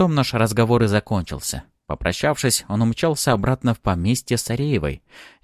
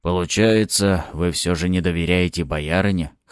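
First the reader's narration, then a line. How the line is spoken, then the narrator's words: Snorting butler. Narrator (Russian): хмыкнул дворецкий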